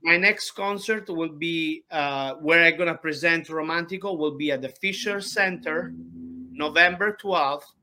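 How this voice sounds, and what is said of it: Speaks with a foreign accent. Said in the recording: “he take a fun of me for my accent... I believe I have a very cute accent”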